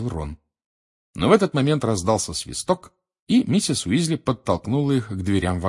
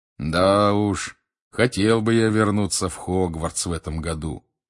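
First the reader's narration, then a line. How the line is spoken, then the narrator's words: Drawling. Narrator (Russian): протянул Билл ... с завистью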